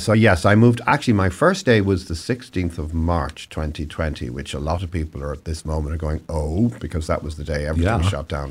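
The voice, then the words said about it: Irish accent. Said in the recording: “you're probably gathering from my accent that I originally came from somewhere a little further east than Oregon. So in Ireland”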